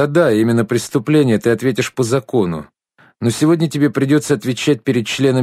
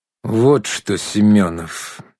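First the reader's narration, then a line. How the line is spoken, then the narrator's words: Slow menacing. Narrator (Russian): медленно и грозно начал Шумилин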